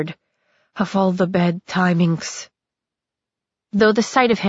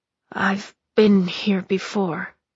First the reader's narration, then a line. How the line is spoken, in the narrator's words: he muttered